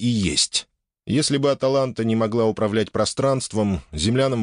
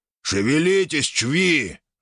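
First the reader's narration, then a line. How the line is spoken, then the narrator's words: Growled. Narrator (Russian): рыкнул он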